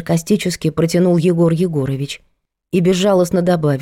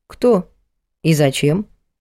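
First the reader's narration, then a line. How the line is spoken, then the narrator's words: Calm question. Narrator (Russian): спокойно спросила Надя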